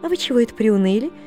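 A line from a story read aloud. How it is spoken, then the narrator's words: Cheerful question. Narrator (Russian): спрашивал дядин приказчик весело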